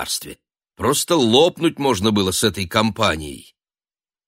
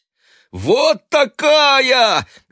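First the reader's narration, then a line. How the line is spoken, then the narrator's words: Desperate shouting. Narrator (Russian): отчаянно кричал Шурик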